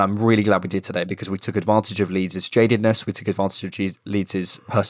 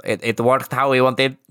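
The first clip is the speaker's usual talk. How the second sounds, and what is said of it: Poor Spanish-accented Unai Emery impression. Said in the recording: “to sound like Unai Emery ... I was going to do a Spanish accent ... Terrible”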